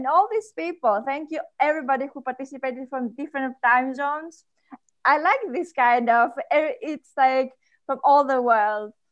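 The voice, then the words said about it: Speaks with a noticeable accent. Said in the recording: “I love your accent. I'm dying over it.”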